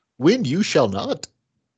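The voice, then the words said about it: Imitates Yoda's voice. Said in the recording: “Was that a good Yoda accent”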